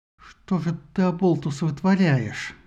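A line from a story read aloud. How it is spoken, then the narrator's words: Hissed through teeth. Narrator (Russian): сквозь зубы прошипела она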